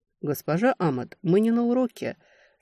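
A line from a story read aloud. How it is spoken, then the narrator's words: Calm rebuke. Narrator (Russian): спокойно вернул меня на место Таннер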